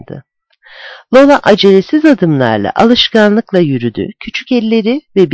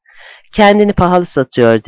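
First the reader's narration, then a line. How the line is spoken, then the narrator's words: Plain. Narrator (Turkish): dedi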